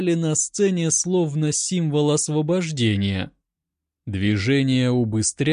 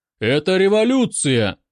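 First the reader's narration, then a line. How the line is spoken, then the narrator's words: Loud theatrical proclamation. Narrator (Russian): громко провозгласил мужчина из первого ряда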